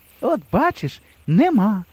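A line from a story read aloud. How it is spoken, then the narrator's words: Said cheerfully. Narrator (Ukrainian): Весело сказала Галина Сидорівна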